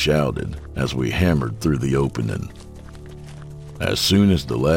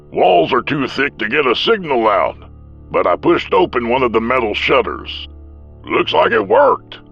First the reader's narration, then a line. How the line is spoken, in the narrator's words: said cheerfully